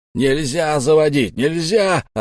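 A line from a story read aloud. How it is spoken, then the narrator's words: Frantic yelling. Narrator (Russian): орал он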